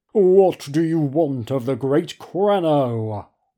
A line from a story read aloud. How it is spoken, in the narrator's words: the little man booms